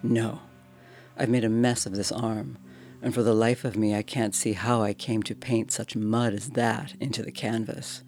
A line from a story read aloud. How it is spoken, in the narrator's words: I replied